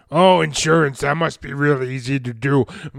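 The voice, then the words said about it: Elephant character voice. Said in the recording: “do a really good elephant impression.”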